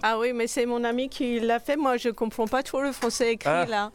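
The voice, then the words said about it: Slight foreign accent in French. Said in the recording (French): “Avec un petit accent.”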